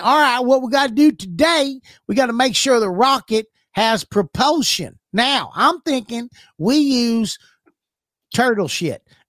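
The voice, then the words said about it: Put-on Mississippi accent. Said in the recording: “A rocket scientist in Mississippi ... You gotta get an accent.”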